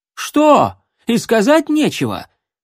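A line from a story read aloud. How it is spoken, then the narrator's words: Shouting. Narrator (Russian): Брунгильда закричала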